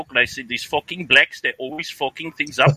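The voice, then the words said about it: Put-on South African accent. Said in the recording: “Do a bit of Zuid African in the South Africans, they talk like this ... That one I got”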